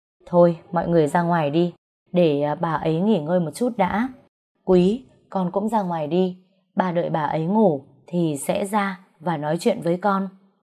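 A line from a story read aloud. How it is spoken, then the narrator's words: Sighing. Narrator (Vietnamese): Bà Dượng thở dài nói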